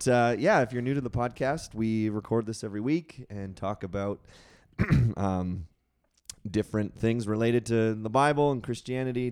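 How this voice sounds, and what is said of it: Strained, partly lost voice. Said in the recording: “you'll have to excuse my voice a little bit. Uh, completely lost it ... now it's coming back slowly”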